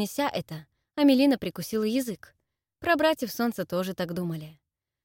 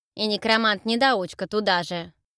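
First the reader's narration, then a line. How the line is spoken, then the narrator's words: Snorting. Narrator (Russian): фыркнула Ула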